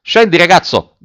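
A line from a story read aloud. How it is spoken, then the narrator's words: Officer's shout. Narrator (Italian): gridò l'ufficiale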